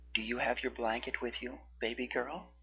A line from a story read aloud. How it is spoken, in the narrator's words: He asked softly